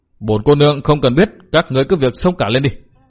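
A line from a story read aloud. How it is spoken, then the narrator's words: Resentful scolding. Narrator (Vietnamese): Hà Ngọc Trì hậm hực quát mắng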